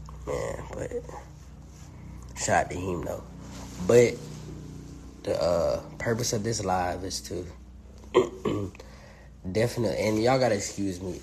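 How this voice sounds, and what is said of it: Hoarse, fading voice. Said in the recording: “kind of losing my voice a little bit. It's because I got mucus in my chest.”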